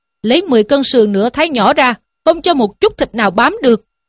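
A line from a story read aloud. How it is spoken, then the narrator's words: Shouted. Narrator (Vietnamese): Lỗ Đạt lại quát lên rằng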